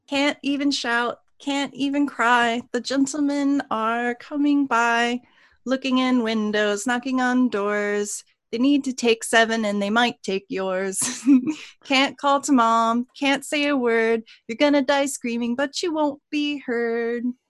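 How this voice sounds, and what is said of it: Little girl voice. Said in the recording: “I don't have a great little girl voice, though ... we guarantee it's better than our little girl voice”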